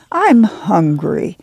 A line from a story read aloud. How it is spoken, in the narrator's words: Ruthie whined